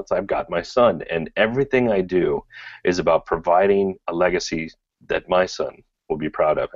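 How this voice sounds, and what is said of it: Choked-up, emotional voice. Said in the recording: “I get a little bit choked up just thinking about it”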